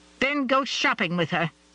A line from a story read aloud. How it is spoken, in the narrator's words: Virginia May snapped